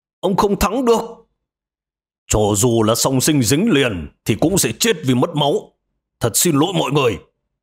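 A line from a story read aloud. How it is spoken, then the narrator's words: Screaming, eyes stinging. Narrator (Vietnamese): Tôi gào lên, hai mắt cay xè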